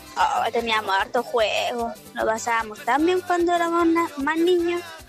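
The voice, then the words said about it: Voice sounds like a little girl. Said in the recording (Spanish): “voz de niñita”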